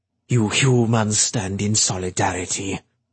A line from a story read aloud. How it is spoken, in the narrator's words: he said bitterly